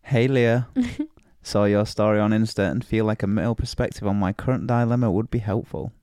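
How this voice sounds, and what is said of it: Northern English accent. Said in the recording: “your northern accent”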